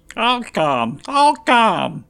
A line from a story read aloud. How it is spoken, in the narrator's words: Kalo exclaimed